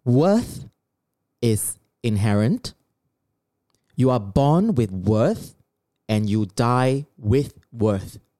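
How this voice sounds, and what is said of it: Slower teacher voice. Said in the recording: “I'm going to put on my teacher voice. ... I'm going to speak a little bit slower.”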